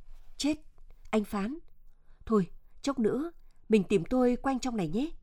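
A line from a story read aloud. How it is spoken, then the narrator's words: Frightened, flustered, quiet. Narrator (Vietnamese): Chợt Tuyết sợ hãi, rối rít khẽ nói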